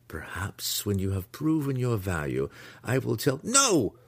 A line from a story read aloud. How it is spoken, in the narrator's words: Alton cried